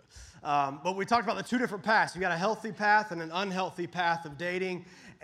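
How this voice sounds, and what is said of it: Slightly off, under-the-weather voice. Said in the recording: “I've been fighting some mess... my voice is a little bit off tonight”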